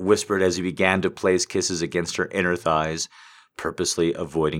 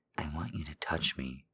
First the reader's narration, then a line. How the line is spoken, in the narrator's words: Flannery whispered in her small voice